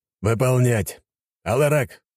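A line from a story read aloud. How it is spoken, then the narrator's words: Boar's bark. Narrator (Russian): рявкнул вепрь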